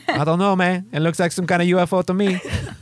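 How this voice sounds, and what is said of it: Put-on Mexican accent. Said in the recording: “You're so Mexican... it just kind of happened in that accent”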